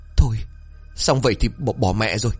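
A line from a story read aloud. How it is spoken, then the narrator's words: Nervous trembling voice. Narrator (Vietnamese): Thiện nuốt nước bọt, giọng run rẩy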